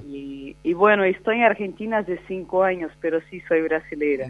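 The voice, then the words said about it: Brazilian accent speaking Spanish. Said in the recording (Spanish): “tengo el acento de Brasil”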